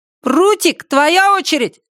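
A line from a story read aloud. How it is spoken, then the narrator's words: Shout after music stops. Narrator (Russian): крикнул кто-то, когда музыка наконец смолкла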